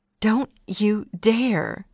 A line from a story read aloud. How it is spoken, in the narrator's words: she hissed